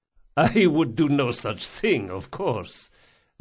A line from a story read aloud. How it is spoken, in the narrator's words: laughed Don Salvara